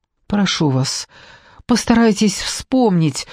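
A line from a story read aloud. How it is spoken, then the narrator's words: Pleading. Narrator (Russian): взмолилась я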